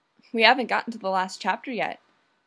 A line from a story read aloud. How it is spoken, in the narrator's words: Judy says